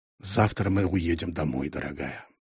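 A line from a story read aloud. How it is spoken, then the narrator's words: Quiet. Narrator (Russian): тихо сказал Мэлоун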